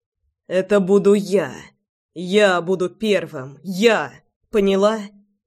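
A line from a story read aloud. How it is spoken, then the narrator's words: Hoarse rasp. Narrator (Russian): Прохрипел он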